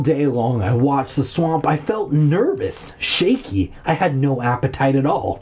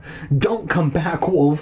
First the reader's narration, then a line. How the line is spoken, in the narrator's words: I pleaded silently